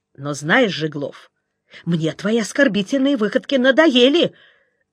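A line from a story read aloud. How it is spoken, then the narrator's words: Shouting. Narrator (Russian): закричал Гриша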